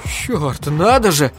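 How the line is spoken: Sobbing. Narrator (Russian): всхлипнул Айзек

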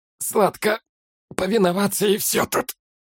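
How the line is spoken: Hoarse rasp. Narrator (Russian): прохрипел пленник

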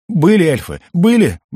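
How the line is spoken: Panicked squeal. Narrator (Russian): взвизгнул я, видя, как Алак перебрасывает веревку через сук ближайшего дерева

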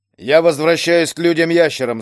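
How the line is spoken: Loud declaration. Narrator (Russian): заявил он громко

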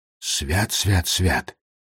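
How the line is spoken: Muttered into emptiness. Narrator (Russian): пробормотал он в пустоту

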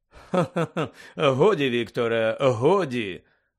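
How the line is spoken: Forced laughter. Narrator (Ukrainian): удавано засміявся Каркаров

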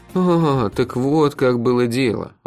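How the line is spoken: Reproachful sigh. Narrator (Russian): укоризненно вздохнул я

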